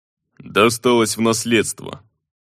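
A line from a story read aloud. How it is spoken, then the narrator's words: Dry reply. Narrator (Russian): сухо отозвался он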